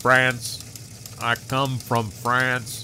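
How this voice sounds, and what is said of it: Beldar Conehead character voice. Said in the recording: “That would explain the accent.”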